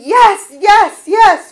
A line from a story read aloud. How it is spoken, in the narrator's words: her voice would not scream